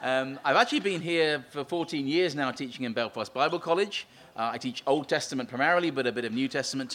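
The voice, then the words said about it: English Essex accent. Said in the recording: “you can probably tell from my accent, I'm from this small island to the east of here called England, and more specifically Essex”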